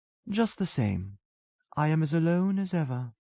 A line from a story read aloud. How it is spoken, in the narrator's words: she breathed